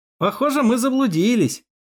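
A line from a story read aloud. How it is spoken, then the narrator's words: Deliberately loud. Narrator (Russian): нарочно громко проговорил я, чтобы шеф меня услышал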